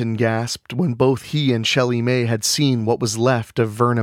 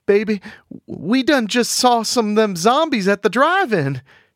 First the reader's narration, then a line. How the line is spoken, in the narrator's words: Shelley Mae cried